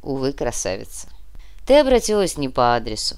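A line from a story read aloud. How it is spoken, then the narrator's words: Sighing. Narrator (Russian): вздохнул Фома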